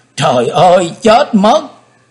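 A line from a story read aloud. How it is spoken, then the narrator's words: Terrified scream. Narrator (Vietnamese): Quỳnh Dao … hét lên khủng khiếp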